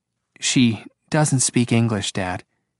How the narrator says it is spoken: Angela said flatly

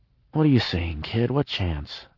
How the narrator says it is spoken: I mumbled

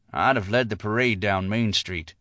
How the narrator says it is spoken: Silas muttered

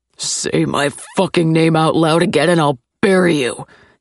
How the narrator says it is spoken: he growls

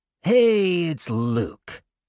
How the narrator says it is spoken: a sneering voice

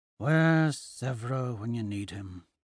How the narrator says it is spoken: I mutter

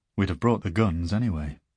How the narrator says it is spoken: she adds dryly

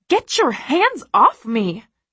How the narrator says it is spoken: I scream over the pounding music, apoplectic with rage

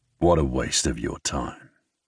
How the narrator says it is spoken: he says to her, his tone cold, closed off

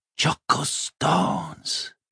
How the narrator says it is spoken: Binnebik breathed

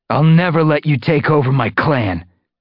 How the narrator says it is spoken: he spat at Tiger Star

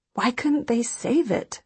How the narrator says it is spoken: She asks, and her voice is choked, almost inaudible

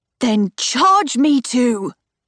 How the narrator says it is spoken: Cor shouts

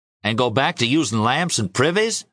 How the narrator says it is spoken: asked Papa irritably

